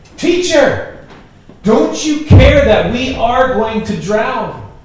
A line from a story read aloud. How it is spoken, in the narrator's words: The disciples woke him up shouting